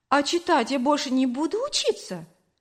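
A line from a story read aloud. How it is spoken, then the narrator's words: Hurt question. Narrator (Russian): обиженно спросила я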